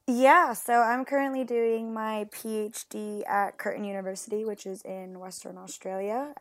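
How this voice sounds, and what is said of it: American accent. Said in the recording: “you sound American ... you sound like you have an American accent”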